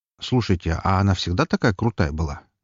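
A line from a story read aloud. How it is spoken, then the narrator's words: Quiet question. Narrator (Russian): негромко поинтересовался я у них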